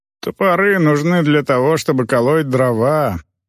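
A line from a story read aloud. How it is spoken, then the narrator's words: Grumbling. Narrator (Russian): проворчал Брека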